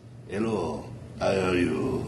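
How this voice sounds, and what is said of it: Put-on Spanish accent. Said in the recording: “Spanish accent”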